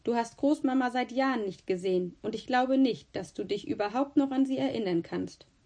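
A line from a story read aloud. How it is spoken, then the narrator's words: Stern. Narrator (German): sagte ich streng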